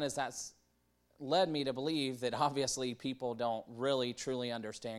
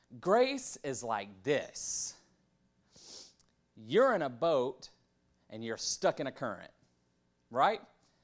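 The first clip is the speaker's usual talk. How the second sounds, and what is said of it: Preacher voice. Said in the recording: “get my good preacher voice”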